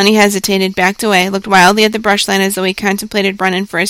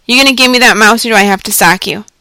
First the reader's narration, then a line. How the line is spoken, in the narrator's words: said coldly